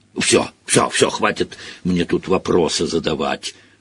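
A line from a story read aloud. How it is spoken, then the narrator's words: Grumbling. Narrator (Russian): проворчал Хагрид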